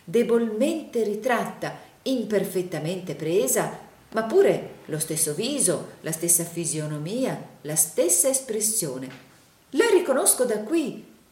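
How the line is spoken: Enthusiastic exclamation. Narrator (Italian): esclamò il signor Plug in un trasporto d'entusiasmo

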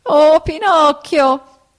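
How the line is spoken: Whining shout. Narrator (Italian): gridò la volpe con voce di piagnisteo

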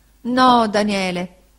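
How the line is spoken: Moaning reply. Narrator (Italian): rispose la signora Gummidge gemendo

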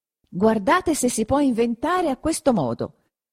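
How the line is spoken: Exclaiming again. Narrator (Italian): esclamò di nuovo Perpetua

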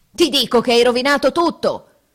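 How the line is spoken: Furious roar. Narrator (Italian): ruggite, desiderando d'aver l'amico nelle mani

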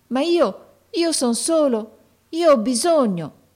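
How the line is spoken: Boy pleading. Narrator (Italian): esclamò il ragazzo con voce di preghiera

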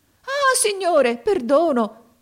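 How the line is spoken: Merchant crying out. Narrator (Italian): gridò il mercante

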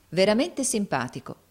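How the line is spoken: Plain. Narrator (Italian): rispose Nicola

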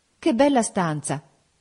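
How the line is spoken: Exclaimed. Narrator (Italian): esclamai

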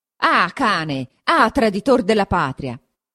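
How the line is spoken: Frenzied shouting. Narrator (Italian): gridò, con un viso da indemoniato

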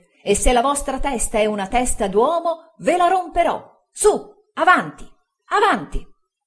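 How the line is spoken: Shouting. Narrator (Italian): gridava

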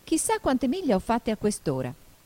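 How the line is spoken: Exclaiming. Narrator (Italian): esclamò Alice

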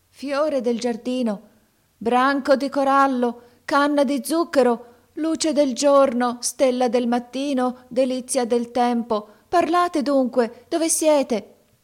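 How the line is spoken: Startling shout. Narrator (Italian): gridò con voce che fece trasalire Canem

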